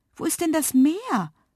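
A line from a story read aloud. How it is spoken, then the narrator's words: Called out. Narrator (German): rief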